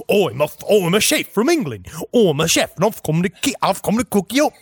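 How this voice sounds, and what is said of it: Put-on English accent. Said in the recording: “great accent”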